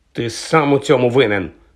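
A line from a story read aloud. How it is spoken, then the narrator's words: Angry accusation. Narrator (Ukrainian): сердито звинуватив Вуда Джордж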